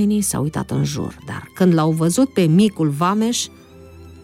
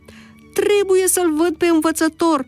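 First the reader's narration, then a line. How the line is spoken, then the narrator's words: Shouting. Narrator (Romanian): striga Zacheu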